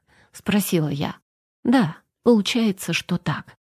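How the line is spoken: Sighing. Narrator (Russian): вздохнул Константин

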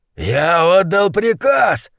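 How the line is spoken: Roaring. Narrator (Russian): взревел Гуляш

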